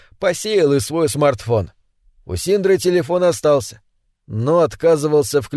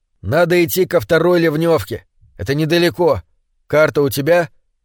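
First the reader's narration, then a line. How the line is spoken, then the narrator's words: Plain question. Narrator (Russian): спросил Рослик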